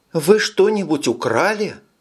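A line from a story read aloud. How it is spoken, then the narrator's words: Frightened exclamation. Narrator (Russian): испуганно воскликнула миссис Симмонс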